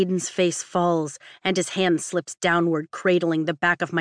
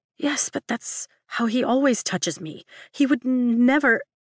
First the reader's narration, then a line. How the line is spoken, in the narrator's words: sputter